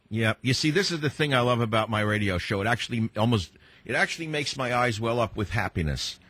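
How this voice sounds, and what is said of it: Heavy New York accent. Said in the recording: “I'm a boy from New York City with a heavy New York accent”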